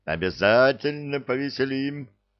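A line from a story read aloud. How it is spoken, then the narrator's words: Excited laughter. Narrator (Russian): азартно расхохотался Нед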